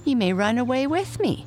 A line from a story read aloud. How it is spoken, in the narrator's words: laughed Mike